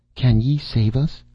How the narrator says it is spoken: she gasped

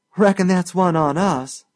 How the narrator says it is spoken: she laughed

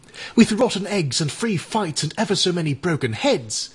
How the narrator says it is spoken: exclaimed Eric

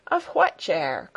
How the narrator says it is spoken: called Peter back in answer, in a morose tone of voice

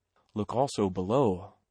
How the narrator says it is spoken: whispered Sir Thomas

